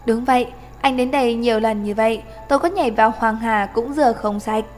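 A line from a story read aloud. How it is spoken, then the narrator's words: Smiling. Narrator (Vietnamese): Chàng Loan Thần mỉm cười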